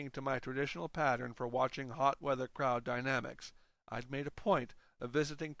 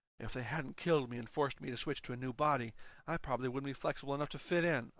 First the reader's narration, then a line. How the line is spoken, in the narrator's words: I hissed at Dan